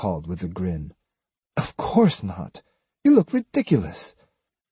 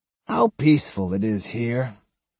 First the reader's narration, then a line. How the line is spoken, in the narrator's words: he sighed, sounding both religious and childlike